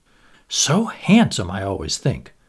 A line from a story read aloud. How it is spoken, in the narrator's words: whispered the Duchess